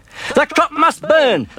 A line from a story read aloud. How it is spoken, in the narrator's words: the farmer cried